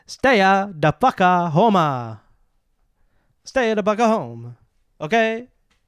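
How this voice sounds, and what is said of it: Bad put-on Italian accent. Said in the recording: “That's a really bad Italian accent”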